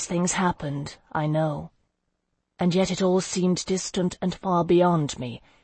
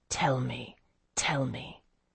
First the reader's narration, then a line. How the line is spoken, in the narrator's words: Selig's whisper in my ear